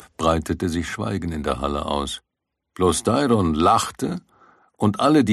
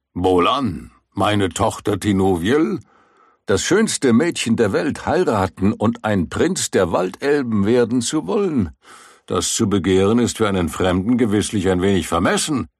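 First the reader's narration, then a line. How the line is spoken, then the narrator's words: Plain. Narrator (German): sagte Tinwelind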